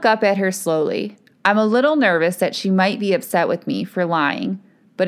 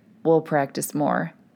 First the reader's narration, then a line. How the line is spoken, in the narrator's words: he whispers into my ear